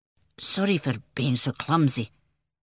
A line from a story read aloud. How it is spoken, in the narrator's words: mumbled